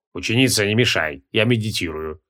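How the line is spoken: Through gritted teeth. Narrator (Russian): сквозь зубы ответил Мак

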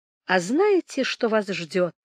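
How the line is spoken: Plain question. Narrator (Russian): спросил Толстопят

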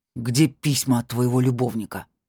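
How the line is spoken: Growled. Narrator (Russian): прорычал

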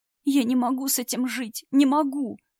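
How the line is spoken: Loud tearful whisper. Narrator (Russian): громко шептал парень сквозь слезы

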